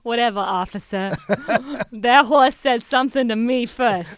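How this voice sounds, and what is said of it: Good put-on Boston accent. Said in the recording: “you got a good Boston accent.”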